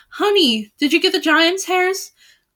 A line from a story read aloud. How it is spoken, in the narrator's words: cried the fair Melisande